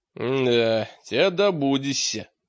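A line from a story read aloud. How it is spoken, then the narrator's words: Grumbling. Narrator (Russian): проворчал Мрак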